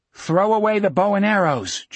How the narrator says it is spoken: Jack yelled

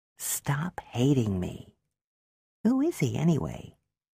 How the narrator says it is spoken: In a smaller, meeker voice, she said

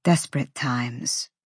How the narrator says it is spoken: Cormac muttered

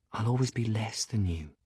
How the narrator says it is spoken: he whispers

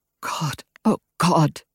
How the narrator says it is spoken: he whispered

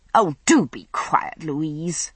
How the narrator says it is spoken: I snapped

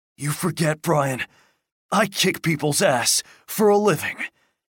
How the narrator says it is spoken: Eddie said in a hoarse voice

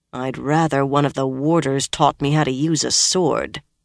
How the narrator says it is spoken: Nynaeve growled

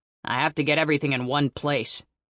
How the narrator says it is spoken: he growled

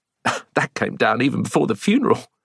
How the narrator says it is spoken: she replied with a sniff of laughter

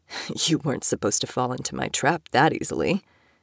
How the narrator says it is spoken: he joked, grunting in pain

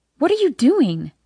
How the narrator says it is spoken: I gasp

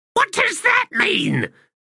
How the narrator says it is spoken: Faint hissed in exasperation

